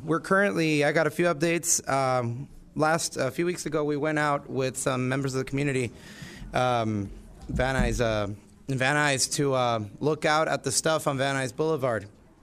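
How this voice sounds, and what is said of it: Weak, hoarse recovering voice. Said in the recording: “I apologize in advance for my voice. I was sick last week, and my voice is starting to come back.”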